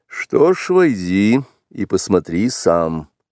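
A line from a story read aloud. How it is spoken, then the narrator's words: Dry, curt. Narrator (Russian): сухо сказал отец-волк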